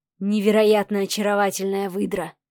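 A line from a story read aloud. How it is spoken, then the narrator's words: Breathless exhale. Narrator (Russian): выдохнул Сава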